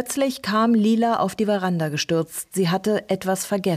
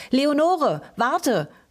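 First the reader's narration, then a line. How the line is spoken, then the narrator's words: Calling out. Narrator (German): rief sie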